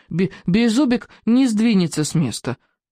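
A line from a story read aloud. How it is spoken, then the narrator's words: Indignant small dragon. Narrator (Russian): возмущенно заявил зеленый дракончик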